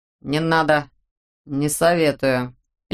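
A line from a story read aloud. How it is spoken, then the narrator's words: Lazy tone. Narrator (Russian): лениво сказал Чемоданов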